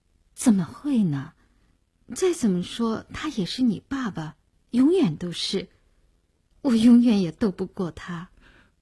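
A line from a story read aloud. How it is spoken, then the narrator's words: Sighing, resigned. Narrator (Chinese): 林星摇头，他摇着头叹了口气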